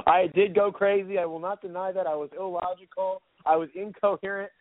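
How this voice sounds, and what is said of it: Hoarse, squeaky voice. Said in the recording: “my voice is a little hoarse right now. It's squeaking as I speak.”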